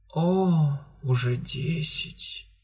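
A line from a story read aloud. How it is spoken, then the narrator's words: Sleepy drawl. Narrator (Russian): Сонно растягивая слова, произнесла Элен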